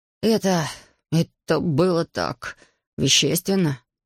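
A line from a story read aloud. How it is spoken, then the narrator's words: Shocked breathless exhale. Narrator (Russian): выдохнул потрясенный провидец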